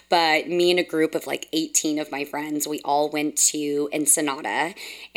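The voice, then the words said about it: Hoarse, scratchy voice. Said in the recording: “my um, voice is a little hoarse and scratchy because I did some damage to myself this past weekend”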